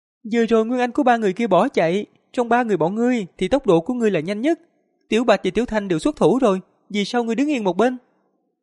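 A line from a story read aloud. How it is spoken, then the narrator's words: Shrill childlike insect voice. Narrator (Vietnamese): Giáp trùng màu vàng ... thình lình nói bằng tiếng người với giọng lanh lảnh non nớt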